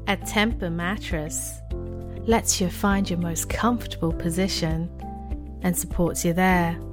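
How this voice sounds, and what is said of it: British accent. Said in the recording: “this is my British accent voice reel”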